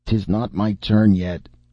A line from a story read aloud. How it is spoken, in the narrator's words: groaned Cap'n